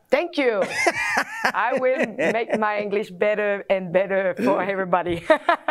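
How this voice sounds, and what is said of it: Quebec French accent in English. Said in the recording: “delightful Quebec City accent, though. It's so charming”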